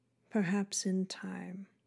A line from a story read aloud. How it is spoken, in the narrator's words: the monarch gently murmured in her ear